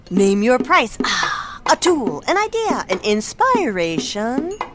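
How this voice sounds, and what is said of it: Beat poet voice. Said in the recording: “my impression of a beat poet”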